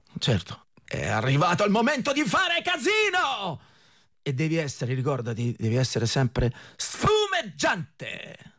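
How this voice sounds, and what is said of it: Imitates a movie character's dubbed voice. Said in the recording (Italian): “Questo era The Mask, Jim Carrey in The Mask ... io nella vita non parlo così”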